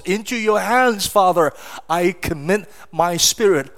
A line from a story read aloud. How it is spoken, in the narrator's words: Jesus cried out on that cross